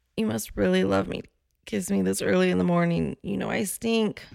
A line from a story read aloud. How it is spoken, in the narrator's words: She giggled a little and whispered